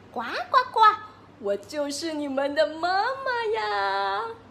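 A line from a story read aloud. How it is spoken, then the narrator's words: Smiling mother frog. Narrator (Chinese): 青蛙妈妈笑眯眯的说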